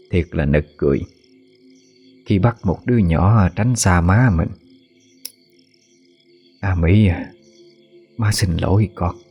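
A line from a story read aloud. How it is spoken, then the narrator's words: Sighing whisper, woman. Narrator (Vietnamese): Bà thở dài rồi thì thầm trong miệng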